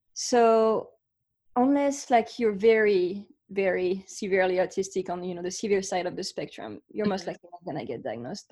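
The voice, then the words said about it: French accent. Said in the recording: “I grew up in France. So you can hear my accent. ... It's beautiful.”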